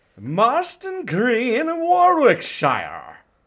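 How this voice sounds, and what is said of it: Poor put-on British accent. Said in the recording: “affect a British accent ... but I'm so bad at it.”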